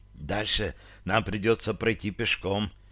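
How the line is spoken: Whisper. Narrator (Russian): почему-то прошептала Таша

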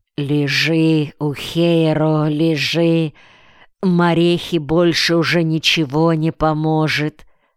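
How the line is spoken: Strange unnatural voice. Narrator (Russian): невидимый хозяин этой руки говорил ему странным, ненастоящим, неестественным голосом

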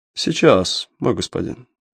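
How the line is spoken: Calm reply, officer. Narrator (Russian): спокойно ответил штабс-ротмистер

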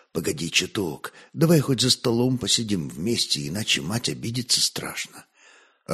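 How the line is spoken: Pleading whisper. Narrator (Russian): сын просительно шепнул на ухо

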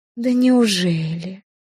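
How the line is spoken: Drawl. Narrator (Russian): протянула я

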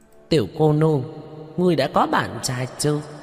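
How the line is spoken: Group laughing loudly. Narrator (Vietnamese): Bọn Hứa Đại Tráng cười lớn

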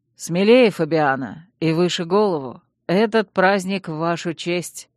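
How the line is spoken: Calm. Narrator (Russian): спокойно сказал Чейз

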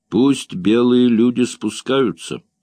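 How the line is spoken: Plain. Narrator (Russian): сказал он

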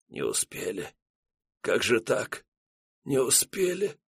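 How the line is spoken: Quiet whisper. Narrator (Russian): поручик стоял на коленях, устремив взгляд в бесконечность, и тихо шептал

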